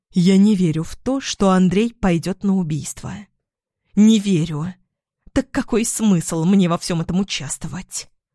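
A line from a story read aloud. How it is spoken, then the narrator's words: Angry hiss. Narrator (Russian): Зашипела Оксана и взвилась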